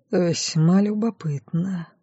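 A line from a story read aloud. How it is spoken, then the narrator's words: Puzzled mutter. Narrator (Russian): пробормотал, потому что совершенно не представлял, зачем генералу понадобились сведения о Катерине Райт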